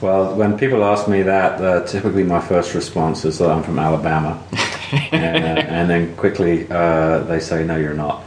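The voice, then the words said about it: London English accent. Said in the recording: “I can tell by your accent, you're not around these parts ... Originally, I'm from London”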